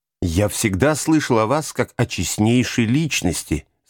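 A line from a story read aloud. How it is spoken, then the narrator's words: Plain. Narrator (Russian): сказал сыщик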